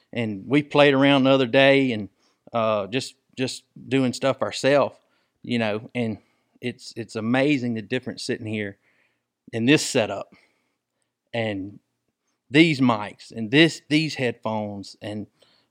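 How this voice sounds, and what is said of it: Rural Southern American accent. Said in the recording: “I know I sound like a redneck,”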